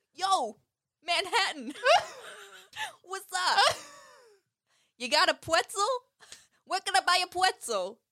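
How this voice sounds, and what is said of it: Put-on New York accent. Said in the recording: “I'm kind of obsessed with the New York accent.”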